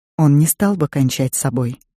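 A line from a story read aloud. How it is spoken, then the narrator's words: Quiet. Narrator (Russian): тихо сказала Пайн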